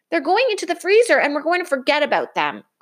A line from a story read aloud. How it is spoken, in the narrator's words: cried Brother